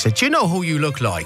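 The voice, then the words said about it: Put-on Irish accent. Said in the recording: “I'm allowed to do an Irish accent”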